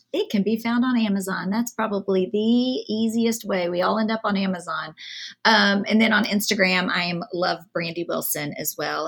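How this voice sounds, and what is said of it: Southern American accent. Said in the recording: “my Southern accent... there's no y'all or anything like that”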